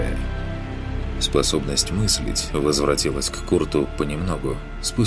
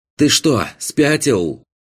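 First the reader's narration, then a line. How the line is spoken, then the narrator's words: Shout. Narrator (Russian): крикнул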